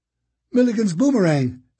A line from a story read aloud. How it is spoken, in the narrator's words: Sticky said, his voice tinged with hope